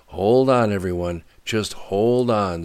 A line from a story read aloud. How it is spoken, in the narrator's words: said Riker loudly